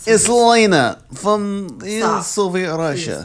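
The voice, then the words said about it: Put-on Russian accent. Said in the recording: “A Russian accent.”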